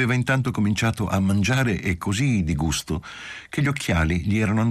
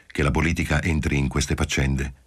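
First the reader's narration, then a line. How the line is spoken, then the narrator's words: Said curtly. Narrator (Italian): disse seccamente Marcello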